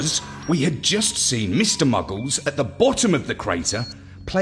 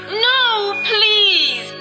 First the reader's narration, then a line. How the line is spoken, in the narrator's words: sobbed Luna